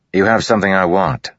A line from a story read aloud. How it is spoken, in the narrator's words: Kaladin said